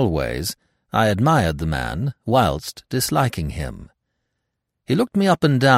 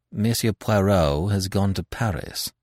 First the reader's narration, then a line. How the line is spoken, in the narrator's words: I replied coldly